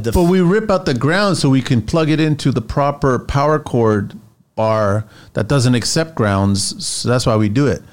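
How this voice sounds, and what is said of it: Impression of a construction site worker. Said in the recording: “That's my impersonation of a worker on site that just found the cord that way”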